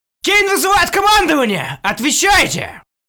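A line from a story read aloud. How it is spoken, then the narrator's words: Panicked yelling. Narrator (Russian): Орал панически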